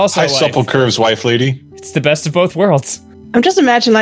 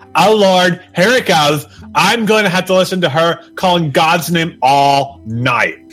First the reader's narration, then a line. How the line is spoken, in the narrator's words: From the other room, Sheldon yelled out